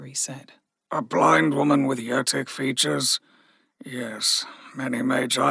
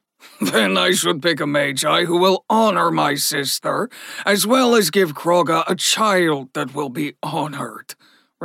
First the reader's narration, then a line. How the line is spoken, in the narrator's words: Ragnar said with a chuckle